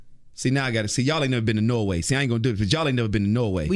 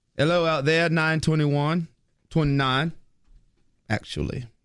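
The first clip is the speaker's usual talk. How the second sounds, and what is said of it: Put-on Australian or British-sounding accent. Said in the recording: “What accent is that? Is it Australian or British? ... It's Norwegian, actually.”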